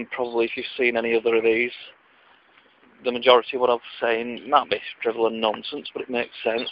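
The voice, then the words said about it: Lancashire Wigan accent. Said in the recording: “my accent, the Lancashire or Wigan accent”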